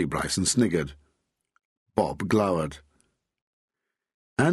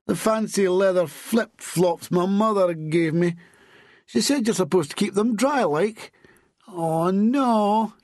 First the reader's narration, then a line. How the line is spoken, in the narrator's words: moaned